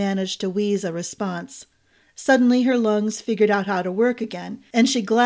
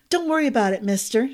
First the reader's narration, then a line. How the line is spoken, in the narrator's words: she blurted